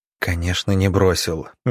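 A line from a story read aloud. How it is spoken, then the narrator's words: Soft. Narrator (Russian): мягко сказал Иван Павлович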